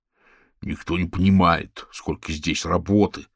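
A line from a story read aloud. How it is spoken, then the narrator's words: Grumbling. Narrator (Russian): проворчал Орвел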